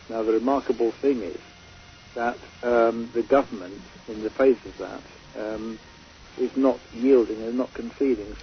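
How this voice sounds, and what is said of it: British accent. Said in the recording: “He's from Great Britain, as you can tell from his accent.”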